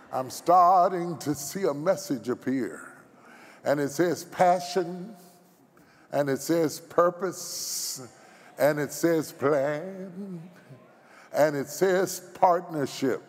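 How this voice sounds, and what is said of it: Baptist preacher-style voice. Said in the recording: “In my Baptist voice,”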